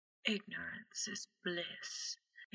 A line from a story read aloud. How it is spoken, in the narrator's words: he whispers in Harry's ear